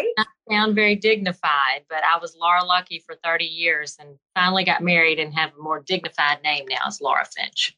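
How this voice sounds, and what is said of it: Alabama Southern accent. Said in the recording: “you have a bit of an accent. ... Birmingham, Alabama.”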